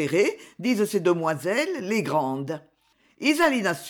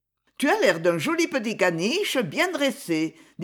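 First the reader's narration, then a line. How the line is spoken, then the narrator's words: Laughing. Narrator (French): dit Ferdine en riant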